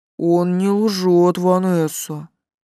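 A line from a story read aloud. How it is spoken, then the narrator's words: Quiet speech. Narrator (Russian): негромко сказал Герхард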